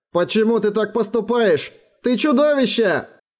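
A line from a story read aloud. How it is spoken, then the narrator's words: Wretched wailing scream. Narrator (Russian): завопил несчастный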